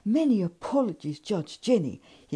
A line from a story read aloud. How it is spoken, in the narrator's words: exclaimed breathlessly